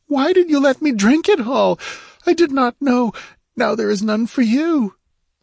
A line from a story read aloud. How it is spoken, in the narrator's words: she wailed